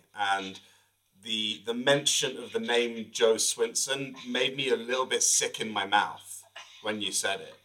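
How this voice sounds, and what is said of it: British accent. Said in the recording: “my accent, I'm originally from the UK”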